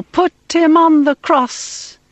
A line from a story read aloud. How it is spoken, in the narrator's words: They cried out all the more